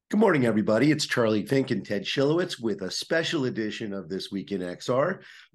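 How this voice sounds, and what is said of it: Worn-out, strained voice. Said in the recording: “as you can hear from my voice. I left it all on the field ... we both have CES voice”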